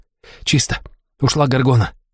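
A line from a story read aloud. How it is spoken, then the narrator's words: Hiss. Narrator (Russian): прошипела она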